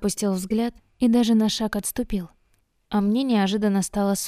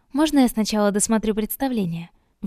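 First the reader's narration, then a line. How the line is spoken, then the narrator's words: Sharp question. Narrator (Russian): слишком резко поинтересовалась я у друга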